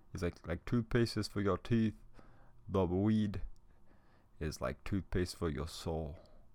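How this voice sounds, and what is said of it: Poor put-on Jamaican accent. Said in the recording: “my Jamaican accent is fucking shitty... my little impression of this guy”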